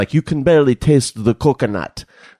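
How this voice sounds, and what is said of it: Vague put-on foreign accent. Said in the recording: “what accent is that? ... That's a ... special. ... Kind of a Norwegian guy. ... I thought it was a little Jamaican. I thought you were going to throw in a mon at the end of that. ... Accent alert.”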